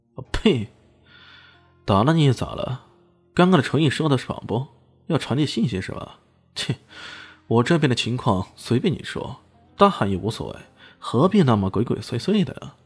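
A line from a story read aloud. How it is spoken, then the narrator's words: Sneering. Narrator (Chinese): 李炫冷笑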